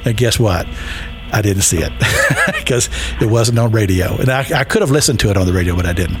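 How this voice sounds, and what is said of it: Kentucky accent. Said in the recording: “You can tell I'm from Kentucky, so just forgive my accent.”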